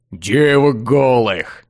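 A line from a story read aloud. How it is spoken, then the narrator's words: Two voices in unison. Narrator (Russian): Дуэтом закончили друзья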